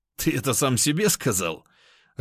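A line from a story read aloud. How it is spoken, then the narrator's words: Laughing. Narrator (Russian): рассмеялся я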